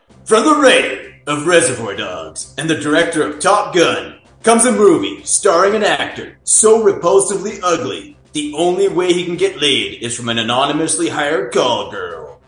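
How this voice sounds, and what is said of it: Epic movie trailer narrator voice. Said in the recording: “I will do it in my most epic movie trailer voice that I can.”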